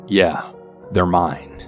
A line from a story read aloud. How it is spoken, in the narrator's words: My mother kind of scoffs to this and then goes